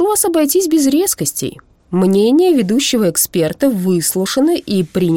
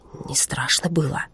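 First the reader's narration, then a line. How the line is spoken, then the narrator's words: Whispered question. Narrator (Russian): шепотом спросил Хиппель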